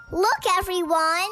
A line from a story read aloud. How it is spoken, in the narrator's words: she shouted